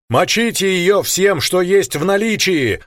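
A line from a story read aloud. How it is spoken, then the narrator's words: Yelled. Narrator (Russian): заорал я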